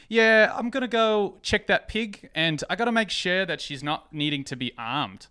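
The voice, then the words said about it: Put-on New Zealand/Australian accent. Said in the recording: “I'm going to do a New Zealand, Australia accent. It might not be great”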